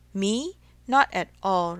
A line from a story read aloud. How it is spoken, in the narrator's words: replied Mr